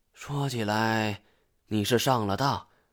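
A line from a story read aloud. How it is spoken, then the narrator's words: Sighing. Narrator (Chinese): 他叹了一口气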